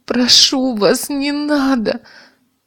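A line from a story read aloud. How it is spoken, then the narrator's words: Pleading. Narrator (Russian): взмолила Ольга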